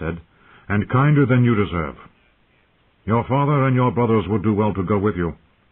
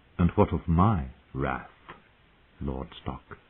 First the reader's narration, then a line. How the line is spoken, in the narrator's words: She asked softly